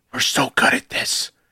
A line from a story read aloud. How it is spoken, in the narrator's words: him whisper